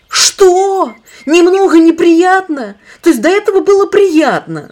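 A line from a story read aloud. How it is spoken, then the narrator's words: Screaming. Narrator (Russian): завопил Иван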